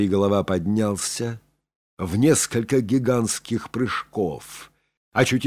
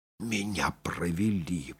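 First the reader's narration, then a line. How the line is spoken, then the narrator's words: Rueful whisper. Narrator (Russian): прошептал Сорвиголова, постигший, наконец, легкомысленность своего поведения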